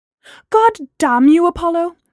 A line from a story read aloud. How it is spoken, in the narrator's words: Gemma cried